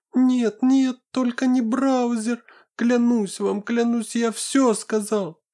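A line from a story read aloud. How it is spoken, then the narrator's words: Squeaking, breaking into tears. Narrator (Russian): Запищал волк, срываясь на слезы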